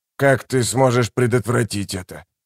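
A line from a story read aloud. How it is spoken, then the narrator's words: Hoarse rasp. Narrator (Russian): Наконец он прохрипел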